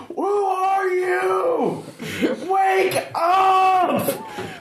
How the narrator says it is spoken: Screaming

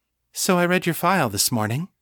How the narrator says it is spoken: said, in a conversational tone

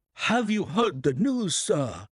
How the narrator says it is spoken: he gasped

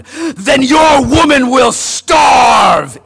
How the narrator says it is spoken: Islak growled

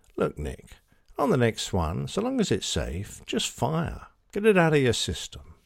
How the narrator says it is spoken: Tony turns his mic on and gently tells me

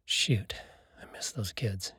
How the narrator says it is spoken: said under his breath

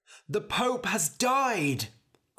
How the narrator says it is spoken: cried a man

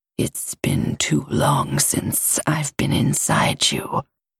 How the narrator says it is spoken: growls

